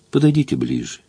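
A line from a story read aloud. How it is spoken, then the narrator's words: Quiet request. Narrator (Russian): тихо попросила миледи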